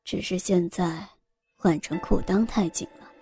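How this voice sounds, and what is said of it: Quiet, hushed speech. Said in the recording (Chinese): “小声的说着”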